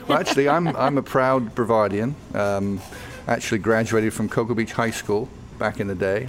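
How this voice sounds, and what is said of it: British accent. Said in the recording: “I love the accent. ... I might be turning a little British”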